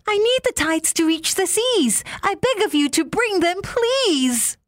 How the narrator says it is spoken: he called out to Moon

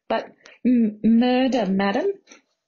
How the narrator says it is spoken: Margot stuttered

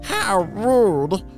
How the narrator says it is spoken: Kitty exclaimed

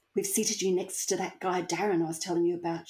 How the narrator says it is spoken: she whispered back

